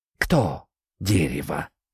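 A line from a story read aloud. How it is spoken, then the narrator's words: Barely audible, from a hollow. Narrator (Russian): просквозило чуть слышно из дупла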